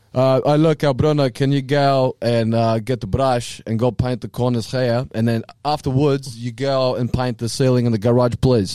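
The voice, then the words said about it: Portuguese accent imitating another person. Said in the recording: “He has a typical Portuguese accent ... That's Portuguese ... That's very Portuguese ... That's very, very Portuguese”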